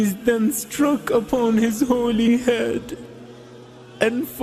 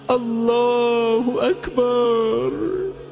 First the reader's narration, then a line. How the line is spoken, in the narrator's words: cries out